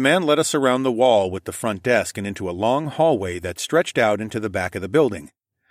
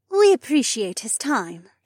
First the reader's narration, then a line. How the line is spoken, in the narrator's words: Janel purred